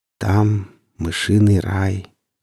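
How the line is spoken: Tender. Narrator (Russian): сказала ласково

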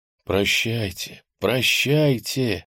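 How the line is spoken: Soft sigh. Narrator (Russian): он тихонько вздохнул

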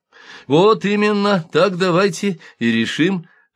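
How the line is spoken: Drowsy old man's joyful exclamation. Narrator (Russian): радостно воскликнул старенький Цуцуй, уже начинавший дремать

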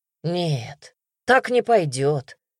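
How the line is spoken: Smirking grunt. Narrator (Russian): хмыкнул

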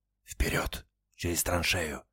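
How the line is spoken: Whispered. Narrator (Russian): прошептал старшина

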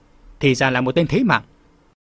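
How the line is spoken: Thin scornful laugh. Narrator (Vietnamese): Hắn cười nhạt

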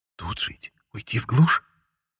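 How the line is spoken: Whisper. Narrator (Russian): шепнула Таня

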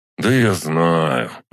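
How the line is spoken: Sighing. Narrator (Russian): вздохнул

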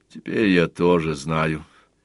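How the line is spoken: Heavy sigh. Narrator (Russian): тяжко вздохнул Сварог

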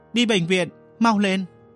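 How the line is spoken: Sharp breath, shout. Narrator (Vietnamese): Mộ Tử hít vào và hét lên

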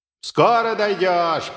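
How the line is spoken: Booming voice. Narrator (Russian): прогремел он

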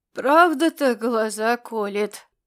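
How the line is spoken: Grumbling. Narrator (Russian): буркнул вошедший Корвин

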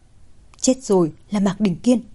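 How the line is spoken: Frightened mutter. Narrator (Vietnamese): Thẩm Lệ sợ hãi, nói lẩm bẩm

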